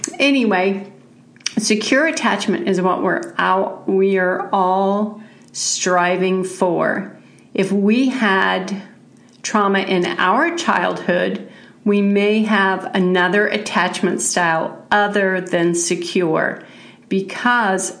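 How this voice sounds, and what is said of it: Congested voice from a cold. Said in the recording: “I've got a little bit of a cold,”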